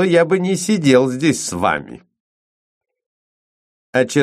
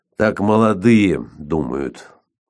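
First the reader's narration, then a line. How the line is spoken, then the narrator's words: Quiet. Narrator (Russian): сказал он тихо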